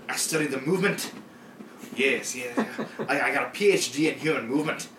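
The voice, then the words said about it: Poorly done put-on accent. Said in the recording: “Your accent's terrible”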